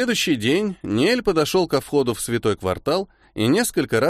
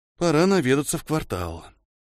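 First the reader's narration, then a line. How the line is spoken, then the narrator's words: Deep sigh, then speaking. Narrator (Russian): глубоко вздохнул и сказал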